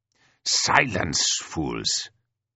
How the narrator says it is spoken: growls Fazel

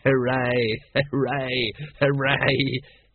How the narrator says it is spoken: he giggled, almost choking

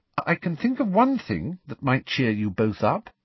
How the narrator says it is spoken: said Hermione, her voice trembling slightly

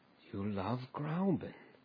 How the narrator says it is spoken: he went on once or twice dreamily

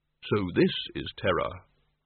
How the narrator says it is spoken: the innermost tiny voice which said quite calmly

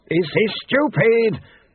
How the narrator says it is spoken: Pestilent shouted

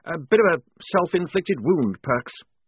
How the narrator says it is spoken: he said nervously

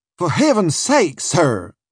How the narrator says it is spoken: cried

